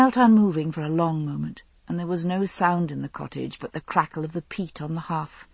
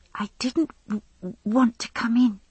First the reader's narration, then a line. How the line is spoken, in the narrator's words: she whispered, glancing shyly